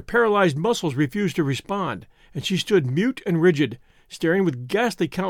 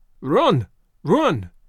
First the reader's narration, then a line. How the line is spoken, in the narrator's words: he cried